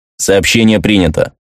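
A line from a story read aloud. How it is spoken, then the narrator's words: Dry robotic voice. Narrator (Russian): сухо сказал робот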